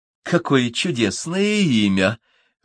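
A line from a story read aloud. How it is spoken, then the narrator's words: Princess exclaiming. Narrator (Russian): воскликнула царевна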